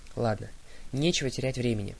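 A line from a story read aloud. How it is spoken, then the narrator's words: Deep sigh. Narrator (Russian): глубоко вздохнул Гровер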